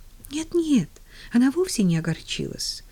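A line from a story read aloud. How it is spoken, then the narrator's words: Agitated correction. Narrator (Russian): взволнованно поправила ее Поллианна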